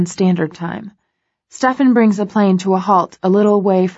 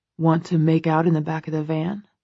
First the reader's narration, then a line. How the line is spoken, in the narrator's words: Christian murmurs to me, a mischievous gleam in his eye